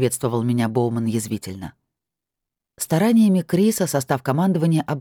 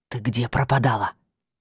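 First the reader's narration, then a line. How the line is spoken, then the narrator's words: Hiss. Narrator (Russian): прошипел мне Уитхем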